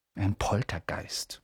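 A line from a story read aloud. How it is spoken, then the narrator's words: Whisper. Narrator (German): flüsterte Percy den Erstklässlern zu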